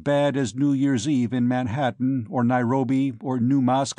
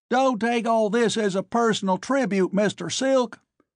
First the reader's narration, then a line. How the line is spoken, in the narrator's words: Hutchinson screamed into my ear